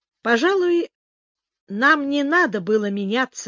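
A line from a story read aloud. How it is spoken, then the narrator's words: Plain. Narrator (Russian): сказала Лора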